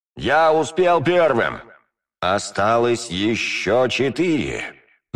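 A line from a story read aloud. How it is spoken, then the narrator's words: Grave, hollow voice. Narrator (Russian): могильным голосом проговорил я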